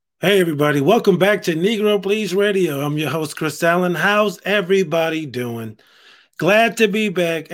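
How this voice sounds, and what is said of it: Dry, congested voice. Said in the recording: “my voice is a little dry. Having some sinus issues, man. ... I feel all dried out”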